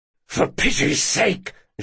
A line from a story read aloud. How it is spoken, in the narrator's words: Jean hissed